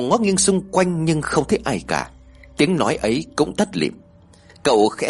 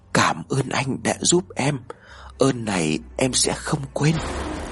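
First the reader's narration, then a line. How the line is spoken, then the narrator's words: Soft, gentle voice. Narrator (Vietnamese): tiếng nói khẽ khẽ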